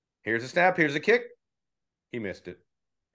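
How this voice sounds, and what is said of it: Dejected sports radio announcer voice. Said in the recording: “my best imitation ... the Michigan State radio feed ... the guy wasn't even like sad or pissed off. He was just dejected”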